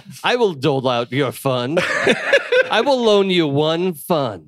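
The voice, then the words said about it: Playful put-on financier character voice. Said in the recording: “my impression of ancient phase idea of how finance works”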